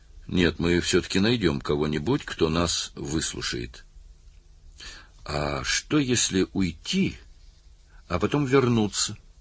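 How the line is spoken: Glum. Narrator (Russian): уныло произнес один из его товарищей

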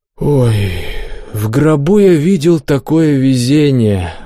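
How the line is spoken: Sighing. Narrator (Russian): вздохнул Добрыня

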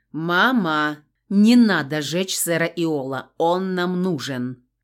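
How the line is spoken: Shouted. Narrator (Russian): крикнул Адриан

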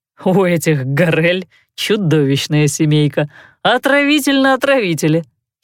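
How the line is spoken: Giggling. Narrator (Russian): хихикнул Дебрюссо

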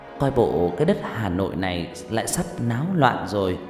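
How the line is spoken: Smiling question. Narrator (Vietnamese): Bà Lương mỉm cười rồi hỏi

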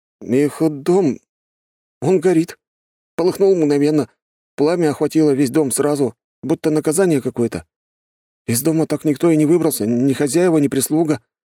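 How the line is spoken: Uncertain messenger. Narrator (Russian): неуверенно произнес посыльный

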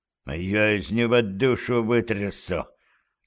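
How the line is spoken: Menacing hiss. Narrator (Russian): с угрозой прошипел Курце

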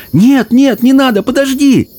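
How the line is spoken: Shout. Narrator (Russian): закричала Цветок в ночи

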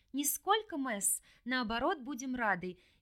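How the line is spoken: Cheerful chirp. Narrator (Russian): весело прощебетала Иванка

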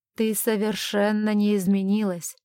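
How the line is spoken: Hoarse with emotion. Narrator (Russian): хриплым от волнения голосом сказал он

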